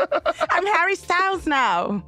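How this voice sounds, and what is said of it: Put-on British accent. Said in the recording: “That's my British accent.”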